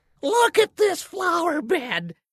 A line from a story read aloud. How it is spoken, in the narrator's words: she had shrieked